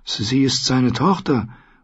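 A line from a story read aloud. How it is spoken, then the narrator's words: Weak objection. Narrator (German): wandte Sam schwach ein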